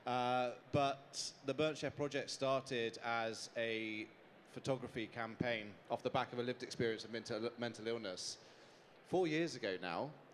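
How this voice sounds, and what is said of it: British accent. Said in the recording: “my accent's probably a little bit different to most of the people in this room... I'm from the UK”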